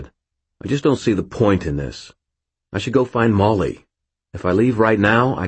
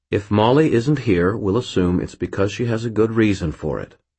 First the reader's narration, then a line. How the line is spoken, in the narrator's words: Murphy said, her tone calm and utterly implacable